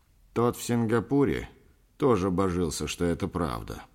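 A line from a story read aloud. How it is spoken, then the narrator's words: Grumbling man. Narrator (Russian): проворчал швед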